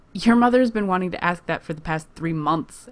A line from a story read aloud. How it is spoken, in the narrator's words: Erica laughs